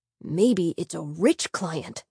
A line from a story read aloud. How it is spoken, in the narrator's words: he whispered